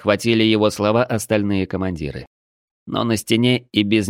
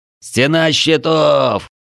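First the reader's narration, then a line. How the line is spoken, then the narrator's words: Officers shouting. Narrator (Russian): кричали сотники и десятники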